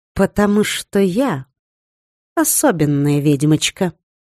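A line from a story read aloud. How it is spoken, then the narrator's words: Sweet little voice. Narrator (Russian): произнесла я милым голоском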